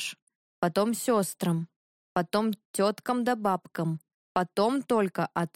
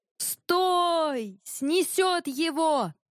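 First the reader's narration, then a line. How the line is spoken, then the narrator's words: Shouting over roaring river. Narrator (Russian): крикнул Иван, перекрывая рокот реки, летящие брызги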